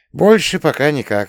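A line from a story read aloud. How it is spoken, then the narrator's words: Sighing. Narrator (Russian): вздохнул я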